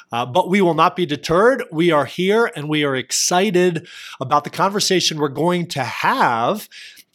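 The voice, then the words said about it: Hoarse voice recovering from cold. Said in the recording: “my voice sounds a little bit different. I'm getting over a cold, and I lost my voice this past weekend, and it's almost back ... if my voice sounds a little off”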